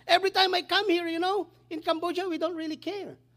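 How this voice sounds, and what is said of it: Cambodian-accented non-native English. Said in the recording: “many Americans struggling to understand my accent, my English... it's just limited”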